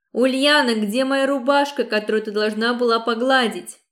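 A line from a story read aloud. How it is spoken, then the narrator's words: Shouting from another room. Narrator (Russian): крикнул Павел из спальни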